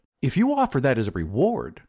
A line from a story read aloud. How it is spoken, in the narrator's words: said the glassblower eagerly